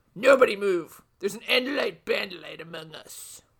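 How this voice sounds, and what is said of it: Put-on villain character voice. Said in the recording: “I don't know what my voice just did ... It did a Trent ... That's not what he sounds like, though ... that's the voice he's putting on”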